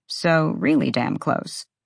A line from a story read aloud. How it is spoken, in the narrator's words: Rune muttered